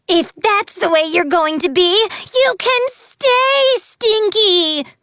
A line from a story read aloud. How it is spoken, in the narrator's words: shouted, her voice no longer sweet